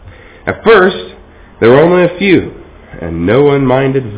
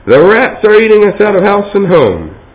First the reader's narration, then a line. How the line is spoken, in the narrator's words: cried an angry woman in the crowd